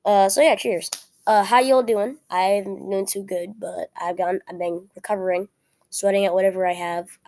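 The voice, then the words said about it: Weak, unclear sick-sounding voice. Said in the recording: “my voice sounds weak or unclear, it's probably because I am sick ... it's weak and unclear, and I still am sick”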